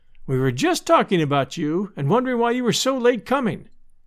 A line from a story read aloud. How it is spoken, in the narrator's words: cried Sister Poteet